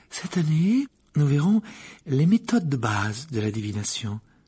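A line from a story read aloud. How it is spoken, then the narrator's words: Calm, peaceful voice. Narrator (French): poursuivit le professeur d'une voix paisible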